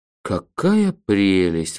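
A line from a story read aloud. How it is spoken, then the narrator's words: Sighing. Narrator (Russian): вздохнул я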